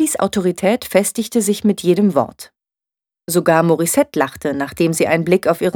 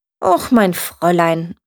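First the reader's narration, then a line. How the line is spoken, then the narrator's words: Very calm. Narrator (German): sagte Lilly sehr ruhig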